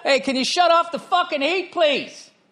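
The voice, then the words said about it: Screaming, very loud voice. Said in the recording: “Stop screaming... You don't have to talk so loud, though.”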